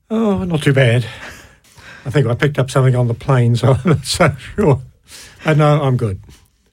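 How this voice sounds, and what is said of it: New Zealand accent. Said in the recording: “People will be able to tell by your accent. You're not local to Stoke-on-Trent, are you? ... I'm a first generation Kiwi”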